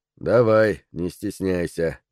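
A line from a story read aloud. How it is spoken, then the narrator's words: Monotone reply. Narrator (Russian): монотонным голосом ответил Роберт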